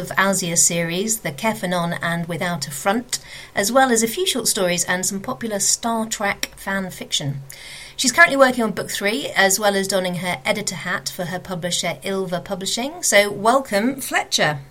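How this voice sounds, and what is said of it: British accent. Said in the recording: “It's that British accent.”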